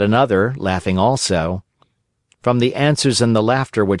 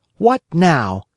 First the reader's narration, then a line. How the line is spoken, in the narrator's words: he said angrily to them